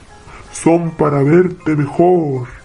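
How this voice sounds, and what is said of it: Wolf imitating a grandmother's voice. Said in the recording (Spanish): “dijo el lobo, tratando de imitar la voz de la abuela”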